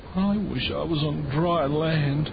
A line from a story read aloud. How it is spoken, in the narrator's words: cried Pete